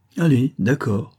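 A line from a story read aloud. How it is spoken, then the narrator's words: Cheerful tone. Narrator (French): dit-elle d'un ton enjoué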